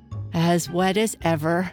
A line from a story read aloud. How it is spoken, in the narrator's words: said Alice in a sad tone